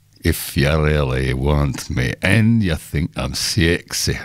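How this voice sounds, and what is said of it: Singing in put-on Scottish accent. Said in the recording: “I like to sing that in the shower in a Scottish accent ... Oh, Groundskeeper Willie from The Simpsons, I remember. That's where I got it from.”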